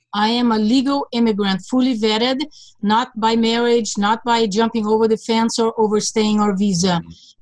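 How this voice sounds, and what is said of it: Slight foreign accent in English. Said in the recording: “there's a trace of an accent in your English. What is that accent? ... I was born in Budapest, Hungary.”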